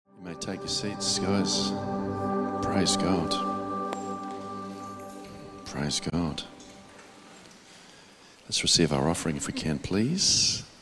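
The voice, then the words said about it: Soft, mellow radio-presenter voice. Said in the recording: “I've got my soft radio voice on. Easy listening, Tuesday nights.”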